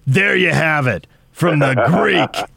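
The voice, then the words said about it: Imitates another person's voice. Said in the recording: “Musburger turned around in that trademark voice.”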